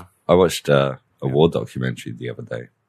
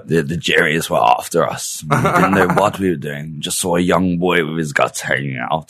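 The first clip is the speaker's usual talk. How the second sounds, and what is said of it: Old-fashioned posh British accent. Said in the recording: “They all talk in that very old stiff upper lip British.”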